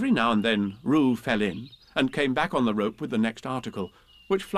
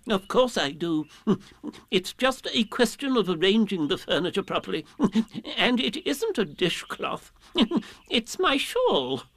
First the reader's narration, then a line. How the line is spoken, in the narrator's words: Owl was calling back indignantly